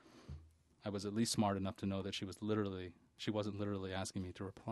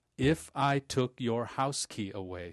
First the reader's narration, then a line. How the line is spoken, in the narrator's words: she barked slowly